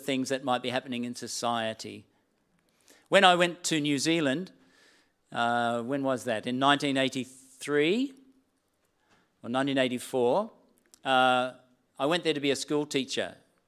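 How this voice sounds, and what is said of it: Australian accent. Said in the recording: “my Australian accent ... the distinctiveness of my accent”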